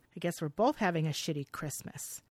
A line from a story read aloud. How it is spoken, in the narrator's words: her brother responds coldly